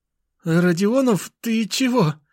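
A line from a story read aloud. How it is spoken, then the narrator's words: Frightened babble. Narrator (Russian): Испуганно пролепетал он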